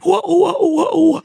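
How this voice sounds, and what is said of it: Imitates Pac-Man video game sound. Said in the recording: “my impression of Pac-Man”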